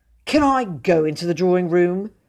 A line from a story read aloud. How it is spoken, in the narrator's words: he said bitterly